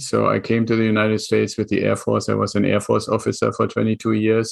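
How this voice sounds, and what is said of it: German accent. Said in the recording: “my accent, and I'm originally from Germany”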